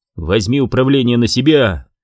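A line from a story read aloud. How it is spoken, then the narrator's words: Shout. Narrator (Russian): выкрикнул ей Карлос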